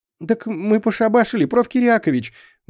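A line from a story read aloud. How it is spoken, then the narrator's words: Shrill squeal. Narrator (Russian): взвизгнул Петька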